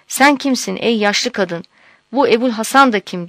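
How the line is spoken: Crying out. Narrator (Turkish): diye haykırmış

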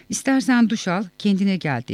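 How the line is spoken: Plain. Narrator (Turkish): dedi

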